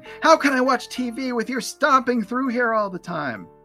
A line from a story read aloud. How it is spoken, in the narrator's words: Lucy now screams at Linus, saying